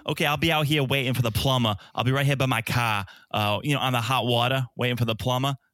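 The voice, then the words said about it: Thick put-on Boston accent. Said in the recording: “it's the thickest. If you thought Mark the Shark had a Boston accent... they gave him so many ER words... That's the Boston accent.”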